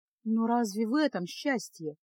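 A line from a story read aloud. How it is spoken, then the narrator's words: Sad question. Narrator (Russian): грустно спросила Феска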